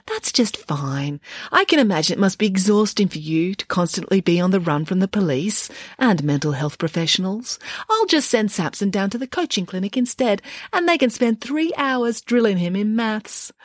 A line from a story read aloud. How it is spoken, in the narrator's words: said Nanny Ann sweetly